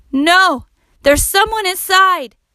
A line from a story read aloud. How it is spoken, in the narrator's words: cried Max